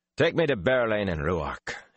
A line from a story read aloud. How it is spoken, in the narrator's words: he ordered gruffly